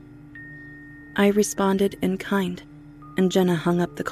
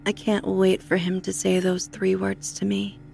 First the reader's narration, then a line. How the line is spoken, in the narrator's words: she said evenly